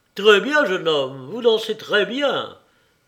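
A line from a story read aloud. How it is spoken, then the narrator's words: General shouting. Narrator (French): cria le général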